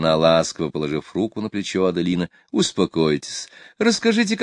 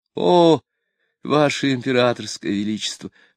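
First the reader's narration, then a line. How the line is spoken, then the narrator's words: Sobbing. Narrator (Russian): рыдая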